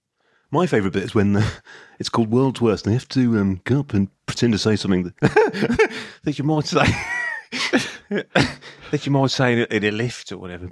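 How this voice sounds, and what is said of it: Put-on Scouse accent drifting West Midlands. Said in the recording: “what's happened to your accent? ... you've tried to scouse ... It went strongly West Midlands very quickly ... it went from Paul McCartney to Noddy Holder within about 10 seconds ... It hurtled south and east at incredible speeds”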